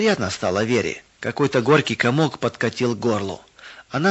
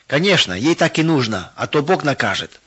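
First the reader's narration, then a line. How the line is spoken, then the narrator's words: Mocking shout. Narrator (Russian): выкрикнула Света, подзадаривая всех к смеху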